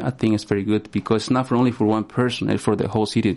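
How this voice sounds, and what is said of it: Spanish-accented English. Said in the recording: “from the way you speak, you're from a Spanish-speaking country.”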